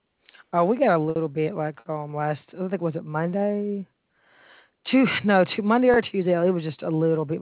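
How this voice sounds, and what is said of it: Thick Southern US accent. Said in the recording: “I can hear your thick accent. ... you must be from the South. I can tell by your accent.”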